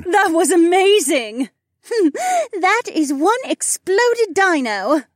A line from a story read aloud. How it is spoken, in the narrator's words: Becca snorted